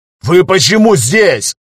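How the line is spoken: Angry roar. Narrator (Russian): взревел Багиров, увидев своих парней

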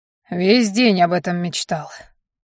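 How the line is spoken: Gruff mutter. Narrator (Russian): буркнул тот в ответ

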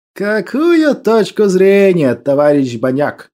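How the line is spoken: General's sarcastic question. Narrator (Russian): ехидно переспросил генерал

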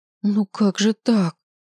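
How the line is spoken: Groaning. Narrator (Russian): простонал

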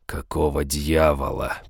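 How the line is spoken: Hoarse rasp. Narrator (Russian): прохрипел я

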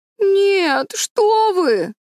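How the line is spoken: Whimpering. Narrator (Russian): захныкал Дэви

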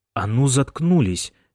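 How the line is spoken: Angry demand. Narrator (Russian): сердито потребовал Томми

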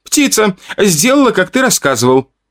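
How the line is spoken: Exclamation. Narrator (Russian): воскликнула Ака

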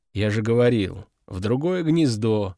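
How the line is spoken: Weary reply. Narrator (Russian): устало отозвался овод

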